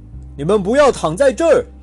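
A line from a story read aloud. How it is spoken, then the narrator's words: Roared. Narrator (Chinese): 看守人吼道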